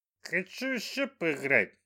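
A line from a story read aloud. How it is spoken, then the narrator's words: Droning singsong. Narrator (Russian): прогудел он нараспев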